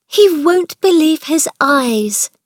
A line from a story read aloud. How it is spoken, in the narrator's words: cried Mary